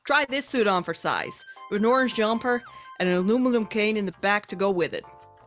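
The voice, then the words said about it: Put-on American accent. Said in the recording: “So we're going for you, American accent.”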